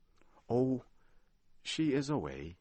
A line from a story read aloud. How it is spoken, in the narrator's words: sighed